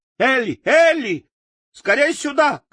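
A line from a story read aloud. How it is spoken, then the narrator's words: Shouting. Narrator (Russian): кричала она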